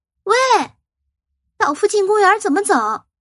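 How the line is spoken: Loud question. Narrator (Chinese): 又大声的问

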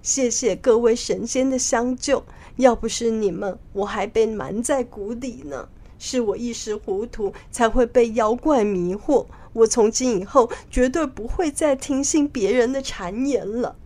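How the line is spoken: Ashamed king weeping. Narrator (Chinese): 比丘国的国王很惭愧的哭着说

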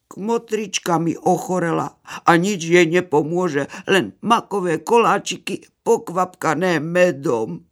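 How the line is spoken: Little hare lamenting. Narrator (Slovak): narieka zajačík

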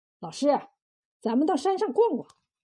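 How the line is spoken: Hasty change of subject. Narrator (Chinese): 子贡……急忙把话头一转

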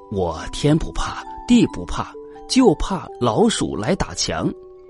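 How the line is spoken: Quiet voice. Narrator (Chinese): 墙小声的说

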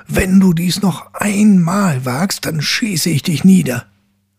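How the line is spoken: Angry young man shouting. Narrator (German): Da fuhr der Jüngling zornig auf und rief

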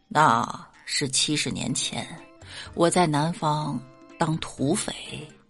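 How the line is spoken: Old man, calm. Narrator (Chinese): 李大爷淡淡的说道

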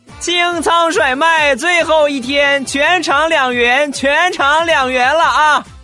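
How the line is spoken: Loud shouting. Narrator (Chinese): 大声的喊道

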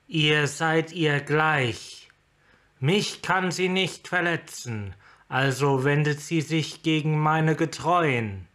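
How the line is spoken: Thundering. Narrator (German): donnerte Tassa

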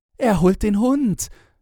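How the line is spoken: Called out. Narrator (German): rief Fräulein Hunter

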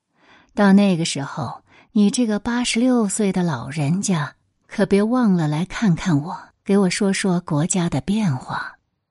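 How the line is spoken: Smiling, warm. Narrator (Chinese): 邓稼先笑着说

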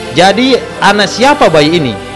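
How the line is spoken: Woman answering loudly. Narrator (Indonesian): perempuan yang gemuk menjawab lantang

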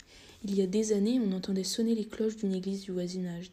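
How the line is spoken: Plain. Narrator (French): dit Léna

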